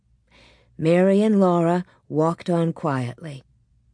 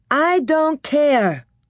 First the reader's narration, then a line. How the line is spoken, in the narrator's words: said Laura loudly and bravely